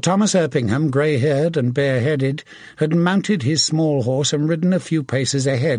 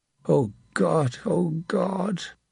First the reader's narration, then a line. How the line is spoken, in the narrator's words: Will of the Dale muttered